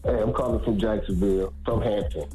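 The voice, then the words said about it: Put-on deep, sexy voice. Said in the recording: “Why you got that deep voice like on? You trying to be all sexy this morning, bro?”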